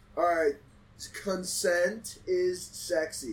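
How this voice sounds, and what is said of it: Speaks very slowly. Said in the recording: “say it so slowly”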